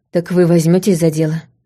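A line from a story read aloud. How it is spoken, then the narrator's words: Gloomy question. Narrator (Russian): мрачно спросил Фейна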